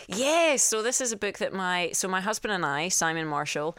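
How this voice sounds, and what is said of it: Scottish accent with American twang. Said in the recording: “because you're Scottish... I've got an American twang.”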